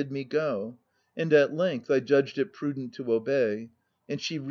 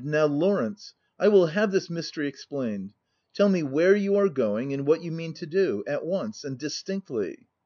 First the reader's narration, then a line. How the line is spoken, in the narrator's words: I exclaimed